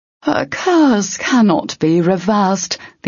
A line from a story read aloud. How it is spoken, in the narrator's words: the ogre said